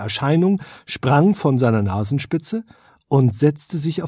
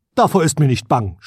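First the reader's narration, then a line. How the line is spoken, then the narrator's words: Loud prince. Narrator (German): sprach der Prinz laut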